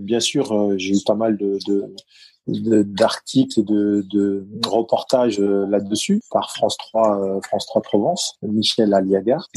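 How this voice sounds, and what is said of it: Parisian titi accent. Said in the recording (French): “mon titi parisien et mon accent”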